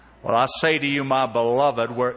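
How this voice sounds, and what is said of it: Deep southern accent imitation. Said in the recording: “with a deep southern accent”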